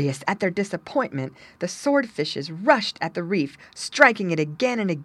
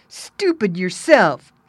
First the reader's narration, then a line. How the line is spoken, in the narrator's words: snapped his brother Jabber